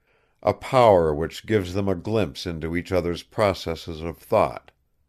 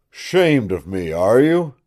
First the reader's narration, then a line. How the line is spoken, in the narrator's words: he grunted fiercely